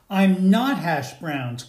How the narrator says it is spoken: cried the latke

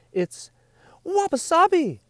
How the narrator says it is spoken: cried her master

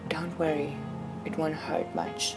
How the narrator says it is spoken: quietly whispered

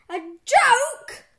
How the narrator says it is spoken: yelled Mr

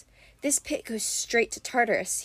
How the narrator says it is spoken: he murmured

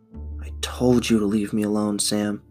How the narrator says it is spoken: Jay got out through clenched teeth

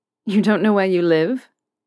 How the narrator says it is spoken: Draco scoffed

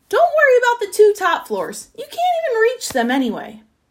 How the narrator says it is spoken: The Duke called out

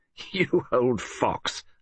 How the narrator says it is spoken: laughed

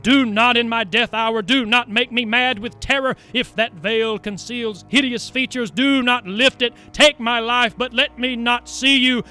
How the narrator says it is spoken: in his failing breath he cried

